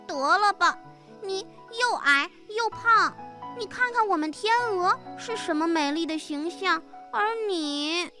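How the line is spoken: Pleading. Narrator (Chinese): 佩妮苦苦地哀求着

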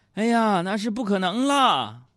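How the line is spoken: Sighing. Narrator (Chinese): 我妈叹气说

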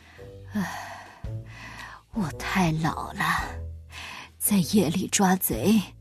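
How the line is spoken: Old man sighing. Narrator (Chinese): 水壶爷爷叹了口气

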